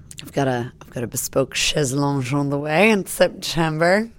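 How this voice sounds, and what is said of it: Put-on posh French accent. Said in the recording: “it only sounds posh because you do it in a French accent”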